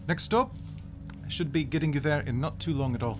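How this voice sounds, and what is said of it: Slightly Australian character accent. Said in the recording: “with a slightly Australian accent for some reason, because switching back and forth between Scottish and slightly Indian British is very difficult.”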